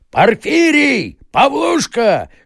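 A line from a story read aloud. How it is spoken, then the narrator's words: Furious shouting. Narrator (Russian): кричал Ноздрев в бешенстве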